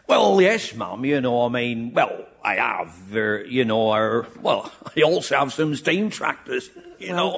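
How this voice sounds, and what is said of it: Working-class accent. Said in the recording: “you have a working-class accent”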